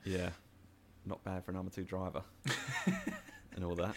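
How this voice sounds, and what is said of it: Mark Webber impression, Australian accent. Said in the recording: “my Mark Webber accent.”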